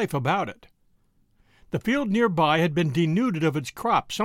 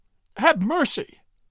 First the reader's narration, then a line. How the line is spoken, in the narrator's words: she pleaded